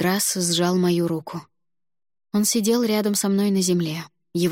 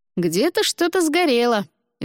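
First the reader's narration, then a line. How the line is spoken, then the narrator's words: Cheerful explanation. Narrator (Russian): весело пояснил Миролюб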